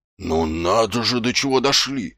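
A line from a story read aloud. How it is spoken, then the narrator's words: Muttering. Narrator (Russian): бормотал Колон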